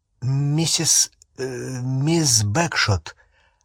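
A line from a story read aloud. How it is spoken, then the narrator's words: Slightly trembling call. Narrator (Russian): окликнул Гарри слегка дрожащим голосом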